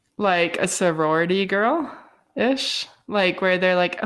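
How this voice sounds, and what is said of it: Usual voice. Nothing is said of it.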